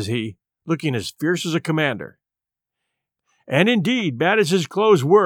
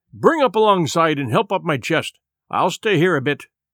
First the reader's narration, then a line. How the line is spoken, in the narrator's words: cried